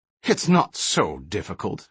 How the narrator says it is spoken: Hendel snorted meaningfully

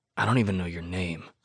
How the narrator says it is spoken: I mutter

